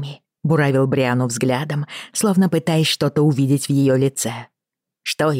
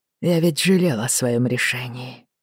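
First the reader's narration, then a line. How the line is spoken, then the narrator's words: Very quiet. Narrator (Russian): очень тихо сказал Джейми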